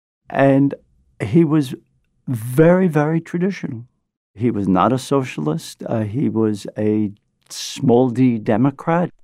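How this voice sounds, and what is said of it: Brooklyn accent. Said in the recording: “This is my Brooklyn accent. ... I love your accent.”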